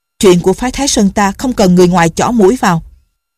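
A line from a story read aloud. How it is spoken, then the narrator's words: Angry. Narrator (Vietnamese): Thiên Môn tức giận nói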